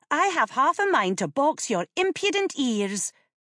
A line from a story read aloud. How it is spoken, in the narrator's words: snapped